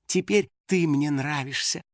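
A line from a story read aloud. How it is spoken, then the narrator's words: Tender whisper, young woman. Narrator (Russian): ласково прошептала девушка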